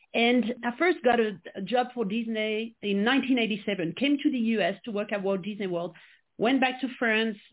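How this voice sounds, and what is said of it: French accent. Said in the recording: “I was born and raised in France, which I'm sure you can quickly pick up uh, with my accent.”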